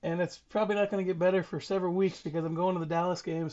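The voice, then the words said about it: Hoarse, strained voice. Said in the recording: “my voice is a little bit special right now, and that's part of coming off of a COVID situation and then the game where you're screaming and whooping and hollering”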